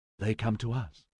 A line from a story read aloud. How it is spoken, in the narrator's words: she whispered